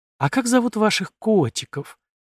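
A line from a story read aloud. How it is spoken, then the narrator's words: Affectionate question. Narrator (Russian): ласково спросила Арина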